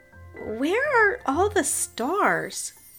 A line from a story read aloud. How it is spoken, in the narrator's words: Uncle Quinn sat down nearby and sighed